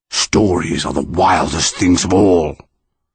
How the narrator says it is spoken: the monster rumbled

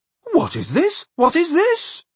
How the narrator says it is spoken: he exclaimed excitedly

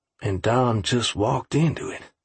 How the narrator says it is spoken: I breathed

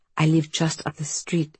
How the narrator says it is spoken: she whispered

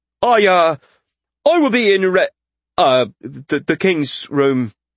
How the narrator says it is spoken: he stuttered

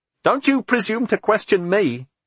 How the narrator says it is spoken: Andrew shouted

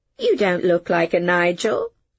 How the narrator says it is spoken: I said gaily

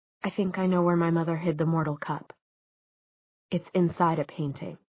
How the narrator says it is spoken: she said so softly that he had to lean forward to catch her words

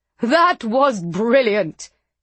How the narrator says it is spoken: he shouted, laughing

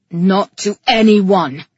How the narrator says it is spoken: he roared

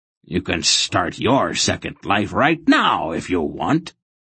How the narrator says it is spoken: he growled threateningly

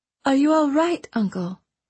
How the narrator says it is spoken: Princess Elise asked, her voice full of concern

